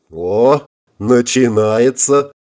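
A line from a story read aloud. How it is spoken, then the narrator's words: Telepathic smirk. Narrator (Russian): В общем канале мысли связи хмыкнул Форд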